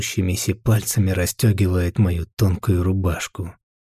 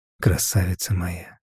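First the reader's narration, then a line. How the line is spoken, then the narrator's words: Quiet. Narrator (Russian): Произношу негромко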